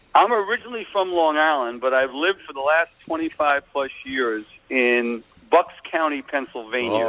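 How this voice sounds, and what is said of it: Long Island accent. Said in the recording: “I can't get rid of my Long Island accent, they tell me, even after 25 years ... you do not want to get rid of that accent. It's a great accent.”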